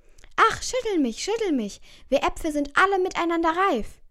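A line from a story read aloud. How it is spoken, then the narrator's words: Calling out. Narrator (German): rief ihr zu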